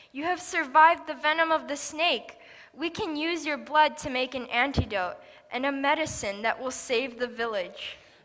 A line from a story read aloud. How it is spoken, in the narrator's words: he cried